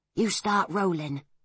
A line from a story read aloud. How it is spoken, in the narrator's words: whispered Pod